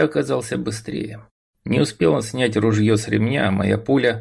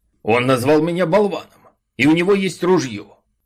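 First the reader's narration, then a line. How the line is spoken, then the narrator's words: Man yelling. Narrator (Russian): Тут же завопил усатый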